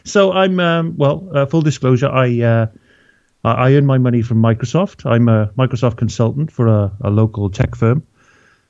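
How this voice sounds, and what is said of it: Welsh accent. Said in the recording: “you may be able to tell from the accent, but I'm from beautiful Wales originally”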